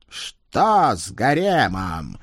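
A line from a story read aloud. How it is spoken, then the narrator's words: Demanding. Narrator (Russian): потребовал ответа Кощей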